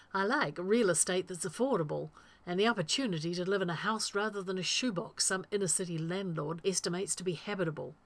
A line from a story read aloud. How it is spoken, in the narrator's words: Rodney blurts